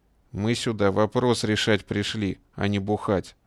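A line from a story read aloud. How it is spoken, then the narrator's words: Calm. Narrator (Russian): спокойно ответил тот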